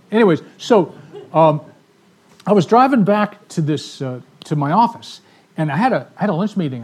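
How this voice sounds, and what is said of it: Speaks with a noticeable accent. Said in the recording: “do I have an accent? Yeah. I do? I mean, your bass player said, you have an accent.”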